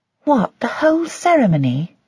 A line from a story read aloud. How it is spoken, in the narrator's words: Joy sighed